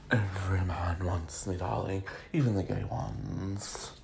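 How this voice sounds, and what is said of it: J-Lo impression, drag-queen-like. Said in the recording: “I made her sound like a drag queen... my J-Lo accent”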